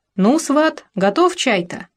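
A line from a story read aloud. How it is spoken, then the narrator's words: Cheerful. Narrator (Russian): сказала весело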